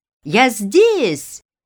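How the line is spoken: Shout. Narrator (Russian): крикнул

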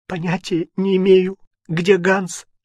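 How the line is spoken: Sobbing. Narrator (Russian): сказала между всхлипами

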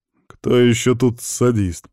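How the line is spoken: Strained, through gritted teeth. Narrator (Russian): процедил, терпя инъекцию

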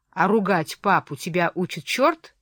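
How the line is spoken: Plain. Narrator (Russian): сказала я

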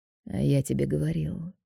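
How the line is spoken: Quiet remark. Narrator (Russian): тихо замечает мне Роберто

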